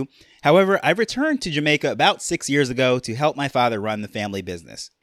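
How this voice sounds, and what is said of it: New York accent. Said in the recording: “I grew up in New York, so that is why I have my New York accent”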